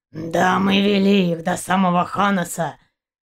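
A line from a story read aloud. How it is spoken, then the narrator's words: Hoarse bass voice. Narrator (Russian): хриплый бас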